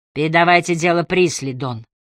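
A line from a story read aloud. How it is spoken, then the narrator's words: Forced calm. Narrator (Russian): стараясь говорить спокойно, ответила Эмили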